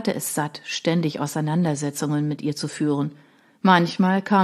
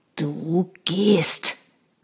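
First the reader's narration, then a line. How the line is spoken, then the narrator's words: Growling. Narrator (German): knurrte er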